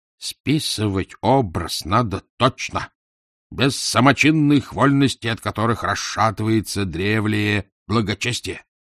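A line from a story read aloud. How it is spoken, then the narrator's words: Stern instruction. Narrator (Russian): наставник строго ему наказывал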